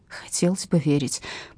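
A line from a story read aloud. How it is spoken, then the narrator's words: Mother whispering back. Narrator (Russian): прошептала в ответ мама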